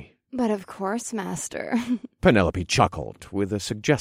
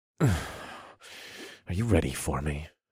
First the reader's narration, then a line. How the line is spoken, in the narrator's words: growled